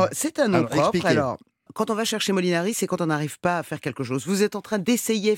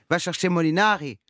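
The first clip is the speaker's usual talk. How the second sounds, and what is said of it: Put-on Marseille accent. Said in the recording (French): “si je, le fais avec l'accent ... direction le sud, à Marseille”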